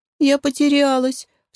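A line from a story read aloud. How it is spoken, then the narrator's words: Frightened sob. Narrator (Russian): всхлипнула испуганно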